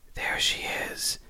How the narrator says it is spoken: a voice whispers in my ear

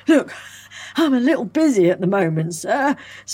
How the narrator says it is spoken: spluttered the lawman

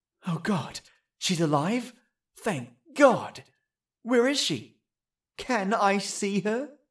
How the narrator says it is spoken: breathed in relief

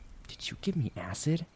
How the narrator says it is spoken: She slowly whispered into his ear

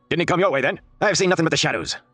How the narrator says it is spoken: came the answer in a heavy accent

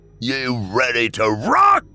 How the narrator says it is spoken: Ryder screamed

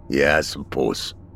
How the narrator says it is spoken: grunted Mac

